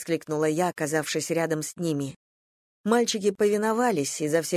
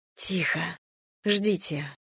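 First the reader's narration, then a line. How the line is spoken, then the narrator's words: Whisper. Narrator (Russian): прошептала я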